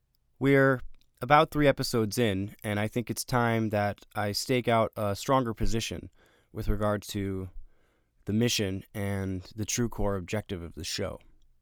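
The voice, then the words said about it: Nasal, congested voice. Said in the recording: “I've been under the weather a little bit lately, so my voice may be a little more nasally than usual.”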